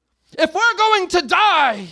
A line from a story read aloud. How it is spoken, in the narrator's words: screamed Atreyu